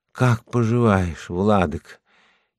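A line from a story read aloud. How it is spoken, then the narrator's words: Barely audible, anxious, weary. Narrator (Russian): Она взволнована и утомлена до такой степени, что говорит мне еле слышным голосом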